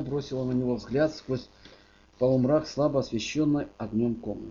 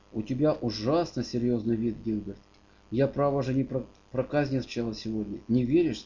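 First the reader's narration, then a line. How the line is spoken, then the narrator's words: Plain. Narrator (Russian): спросил Сюзан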